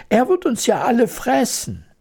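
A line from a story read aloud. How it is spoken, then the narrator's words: Horrified scream. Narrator (German): schrie die Königin entsetzt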